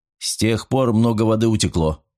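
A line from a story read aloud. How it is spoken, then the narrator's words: Irritated curt remark. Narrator (Russian): раздраженно бросил Николсон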